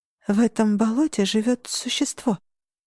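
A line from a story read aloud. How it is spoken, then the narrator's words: Whispered. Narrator (Russian): прошептала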